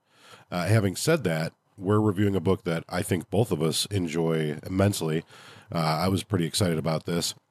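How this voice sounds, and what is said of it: Slightly nasal, sick-sounding voice. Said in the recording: “if I sound a little nasally, I'm a little sick.”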